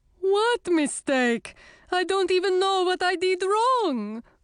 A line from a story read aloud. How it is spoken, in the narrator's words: wailed Garrett